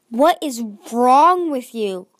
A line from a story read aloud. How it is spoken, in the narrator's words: Glory's voice snapped